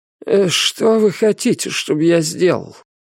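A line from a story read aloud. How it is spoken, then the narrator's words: Hesitant question, vagrant. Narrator (Russian): неуверенно спросил бродяга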